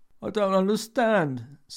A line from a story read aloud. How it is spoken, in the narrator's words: said Paul, his cheek pushed flat against the desk, his voice a muffled squeak